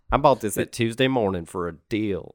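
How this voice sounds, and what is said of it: Imitated Southern woman's accent. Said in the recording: “It's my mom and her southern accent ... that voice ... a southern lady”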